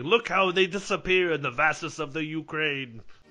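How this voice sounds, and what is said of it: Bad put-on Russian accent. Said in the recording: “putting on a bad Russian accent”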